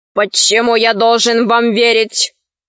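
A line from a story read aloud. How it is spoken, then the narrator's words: Stern question. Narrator (Russian): строго спросил арх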